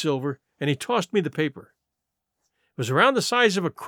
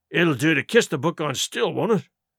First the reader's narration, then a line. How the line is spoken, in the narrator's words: growled Dick, who was evidently uneasy at the curse he'd brought upon himself